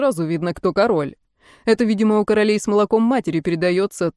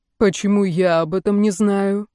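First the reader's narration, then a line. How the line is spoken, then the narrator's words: Calm but furious. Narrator (Russian): Георг по-прежнему говорил спокойно, но все равно было понятно, он в бешенстве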